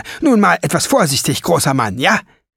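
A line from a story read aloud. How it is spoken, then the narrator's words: Shrill cry. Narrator (German): rief sie mit schriller Stimme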